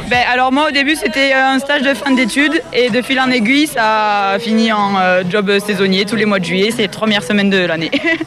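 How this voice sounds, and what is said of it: Slight regional French accent. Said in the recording (French): “vous avez un petit accent quand même ... Pas tout à fait celui de la Bigorre.”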